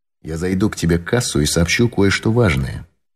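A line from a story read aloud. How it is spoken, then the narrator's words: Whisper. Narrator (Russian): шепнул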